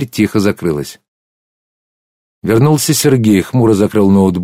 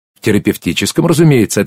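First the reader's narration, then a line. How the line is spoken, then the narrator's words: Brisk cheerful reply. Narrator (Russian): ответила бодро медсестра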